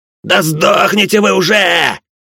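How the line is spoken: Shouted. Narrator (Russian): закричал Бухейл

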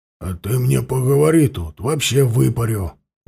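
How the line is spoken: Menacing bark. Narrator (Russian): Грозно рявкнул Тарас

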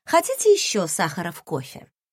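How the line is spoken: Plain question. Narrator (Russian): спросила я

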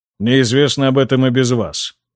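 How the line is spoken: Calm. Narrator (Russian): спокойно кивнул Генрих

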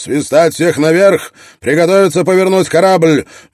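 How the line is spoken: Shouting. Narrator (Russian): Строн прокричал

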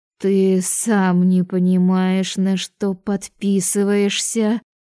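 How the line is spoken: Muttering. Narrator (Russian): пробормотала я

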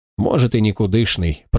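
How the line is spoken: Indifferent grumble. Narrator (Russian): проворчал он безразлично

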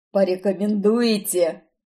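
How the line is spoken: Hoarse wheeze, stocky man. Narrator (Russian): просипел коренастый

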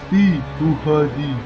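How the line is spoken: Resigned, forced out. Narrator (Russian): обреченно выдавил Ахмед

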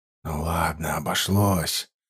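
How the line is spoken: Whisper. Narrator (Russian): прошептал поручик

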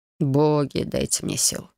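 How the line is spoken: Groaning. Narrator (Russian): простонал комендант

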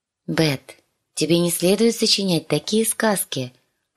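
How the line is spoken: Gentle correction. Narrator (Russian): поправила Санса-младшую

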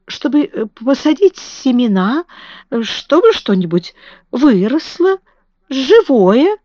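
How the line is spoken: Stammering. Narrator (Russian): запинаясь, сказала Мэри

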